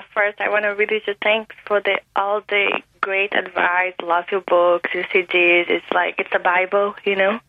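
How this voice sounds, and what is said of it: Brazilian-accented English. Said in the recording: “What's that accent? ... Let me guess. Peru. ... I'm from Brazil.”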